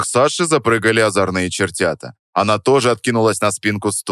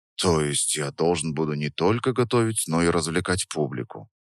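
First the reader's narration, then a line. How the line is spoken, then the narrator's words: Theatrical sigh. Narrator (Russian): Я картинно вздохнул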